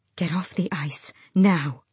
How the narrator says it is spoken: she breathed to Luca

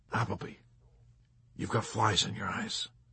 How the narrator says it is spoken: he whispered helpfully

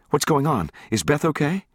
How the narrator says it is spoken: She asked anxiously

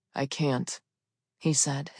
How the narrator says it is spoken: his voice raspy and emotionless

